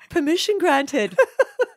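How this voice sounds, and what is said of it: Playful put-on British accent. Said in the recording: “fake voice ... my little British voice ... That's very good.”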